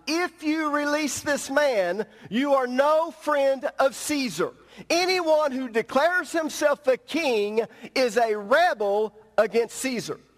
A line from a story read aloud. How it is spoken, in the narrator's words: the Jewish leader shouted